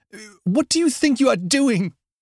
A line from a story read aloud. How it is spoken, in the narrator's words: She shouts above the cries of her people fighting with mine